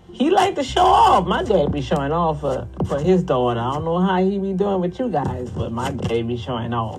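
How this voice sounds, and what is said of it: Fast New Orleans Cajun accent. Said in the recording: “I talk fast in my accent ... I talk too fast ... that New Orleans Cajun stuff coming out of there”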